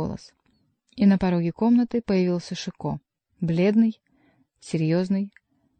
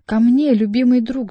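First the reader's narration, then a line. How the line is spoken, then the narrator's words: Yelled. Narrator (Russian): завопил он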